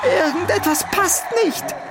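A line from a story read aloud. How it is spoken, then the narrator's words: Shouting. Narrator (German): schrie Oliver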